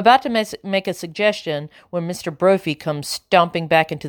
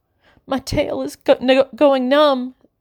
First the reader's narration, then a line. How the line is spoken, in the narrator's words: sobs Gwendol